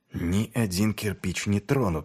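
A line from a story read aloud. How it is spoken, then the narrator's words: Muttering. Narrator (Russian): бормотал он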